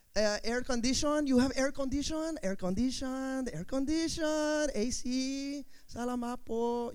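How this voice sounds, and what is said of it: Put-on Filipino accent. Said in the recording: “I begin to take on the accent of wherever I go ... I'll come back from the Philippines”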